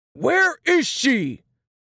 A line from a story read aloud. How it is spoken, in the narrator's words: Papa's voice boomed